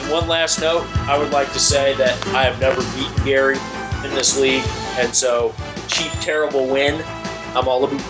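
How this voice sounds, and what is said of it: Put-on Canadian accent. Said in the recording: “with a Canadian accent”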